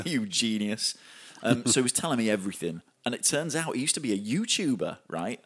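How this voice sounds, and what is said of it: Yorkshire accent. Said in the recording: “The Yorkshire accent.”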